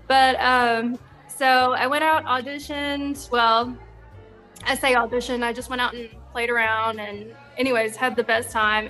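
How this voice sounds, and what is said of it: Southern American accent. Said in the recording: “I'm an opera singer with a Southern accent”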